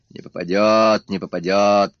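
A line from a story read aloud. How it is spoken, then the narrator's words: Grumbling. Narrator (Russian): проворчал Пыркин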